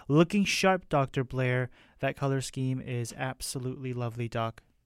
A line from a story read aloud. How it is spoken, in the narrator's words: Connie exclaimed